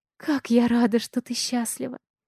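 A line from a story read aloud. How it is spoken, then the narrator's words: Aunt's whisper. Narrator (Russian): прошептала тетя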